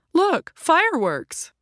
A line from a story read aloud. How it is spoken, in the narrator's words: Leonard exclaimed